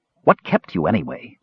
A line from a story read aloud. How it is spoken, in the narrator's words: Raistlin asked